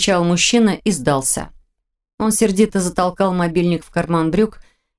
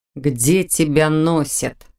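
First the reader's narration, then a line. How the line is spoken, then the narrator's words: Gloomy mutter. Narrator (Russian): Мрачно пробормотал Непогодин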